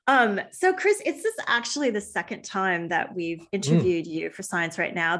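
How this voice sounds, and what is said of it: American accent, slightly Australian-tinged. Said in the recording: “I moved here from the US ... you're so American ... you don't sound too American. You do sound like, if I had to guess, I would say you're an American who's been here for a while.”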